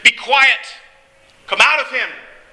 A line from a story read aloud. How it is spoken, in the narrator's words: The rabbi said sternly